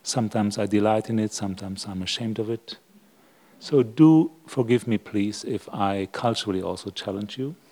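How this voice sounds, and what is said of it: Non-native English accent. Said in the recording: “As you can hear probably from my accent, I'm not English.”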